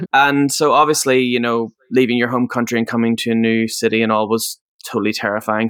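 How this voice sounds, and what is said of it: Northern Irish accent. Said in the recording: “originally from Northern Ireland, if you can't tell from the accent.”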